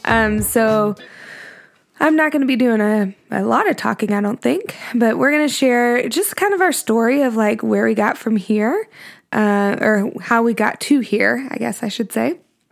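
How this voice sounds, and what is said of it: Sick, congested-sounding voice. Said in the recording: “This week, I am sick. I'm sure you can hear that in my voice.”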